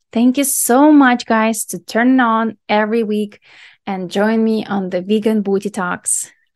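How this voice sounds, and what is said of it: Speaks with a noticeable accent. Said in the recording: “my weird accent”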